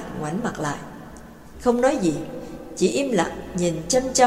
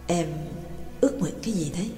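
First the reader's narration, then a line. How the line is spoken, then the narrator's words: Softly asked. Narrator (Vietnamese): Trương Lập mới khẽ hỏi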